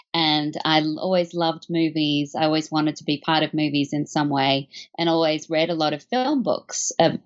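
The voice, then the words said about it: Australian accent. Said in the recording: “as you can probably tell from my accent, I'm not from America. I was born in Australia”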